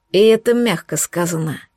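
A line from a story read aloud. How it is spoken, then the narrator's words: Gloomy, from behind. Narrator (Russian): мрачно произнесла Майя за моей спиной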